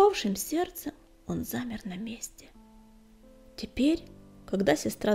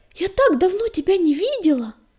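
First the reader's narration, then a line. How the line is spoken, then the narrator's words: Anxious exclamation. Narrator (Russian): с тревогой воскликнула сестра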